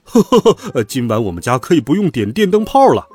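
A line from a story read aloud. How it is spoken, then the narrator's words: Father laughing heartily. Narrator (Chinese): 爸爸…大笑道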